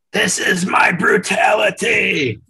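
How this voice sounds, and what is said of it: Gravelly rough impression voice. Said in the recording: “Did you chug some gravel before you threw that impression down?”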